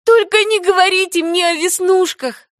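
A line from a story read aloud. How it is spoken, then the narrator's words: Pleading. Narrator (Russian): взмолилась Энни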